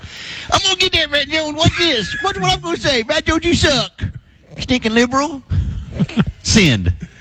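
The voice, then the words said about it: Imitates another person's voice. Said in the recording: “I like that impersonation. who is that supposed to be? ... The dude that's poking at you. ... That is a good impersonation.”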